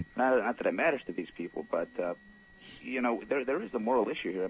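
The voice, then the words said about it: Foreign accent. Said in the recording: “I'm an immigrant. ... I never lost the accent”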